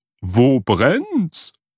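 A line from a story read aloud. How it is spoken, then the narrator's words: Calling out. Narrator (German): rief sie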